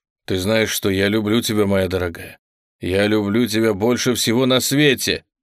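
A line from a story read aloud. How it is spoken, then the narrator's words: Desperate exclamation. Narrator (Russian): в отчаянии воскликнул он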